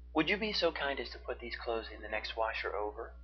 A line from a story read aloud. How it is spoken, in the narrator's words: Zeke asked her